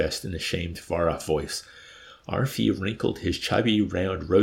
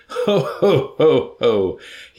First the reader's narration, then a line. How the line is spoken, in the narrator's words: he laughed